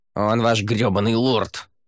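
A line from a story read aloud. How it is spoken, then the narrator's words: Growling. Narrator (Russian): прорычал Монти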